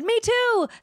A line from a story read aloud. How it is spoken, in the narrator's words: shouted Sarah